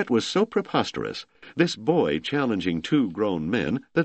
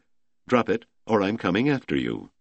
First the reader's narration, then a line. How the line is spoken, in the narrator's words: he calmly said